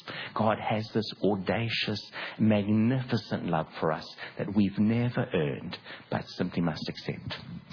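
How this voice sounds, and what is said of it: South African accent. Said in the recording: “I grew up in Durban in South Africa, and that's where the accent comes from”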